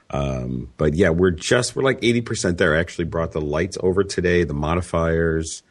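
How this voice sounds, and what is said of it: Slightly hoarse voice. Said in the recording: “I sound a little hoarse, so that's just from being run down”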